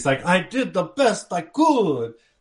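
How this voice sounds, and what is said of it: Bad put-on Italian accent. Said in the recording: “that was a bad Italian accent”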